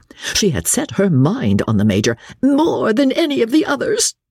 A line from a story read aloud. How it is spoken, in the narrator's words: she sobbed